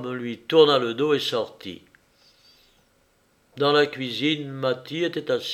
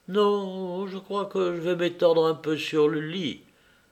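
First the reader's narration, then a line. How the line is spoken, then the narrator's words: Doleful, plaintive voice. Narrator (French): répondit-elle d'une voix dolente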